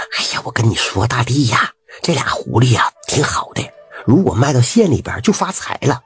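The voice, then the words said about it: Quiet, hushed voice. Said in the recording (Chinese): “小声的”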